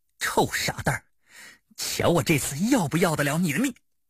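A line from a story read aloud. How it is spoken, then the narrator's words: Low voice through gritted teeth. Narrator (Chinese): 咬牙低声说道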